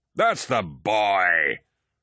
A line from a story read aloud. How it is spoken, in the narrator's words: Torgadden roared